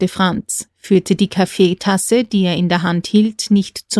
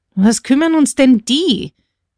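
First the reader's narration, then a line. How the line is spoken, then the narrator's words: Calling out, guard. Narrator (German): rief nun schon der große Wächter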